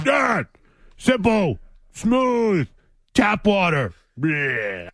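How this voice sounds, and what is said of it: Impression of Zoe reading ads. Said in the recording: “That's your Zoe impersonation? ... Zoe doing Tito's reads.”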